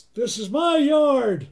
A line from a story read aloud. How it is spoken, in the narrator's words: He kind of yells